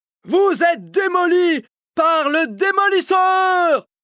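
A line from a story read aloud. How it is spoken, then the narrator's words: Yelled. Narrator (French): hurle-t-il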